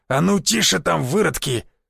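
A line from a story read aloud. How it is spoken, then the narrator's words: Growled. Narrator (Russian): Зарычал он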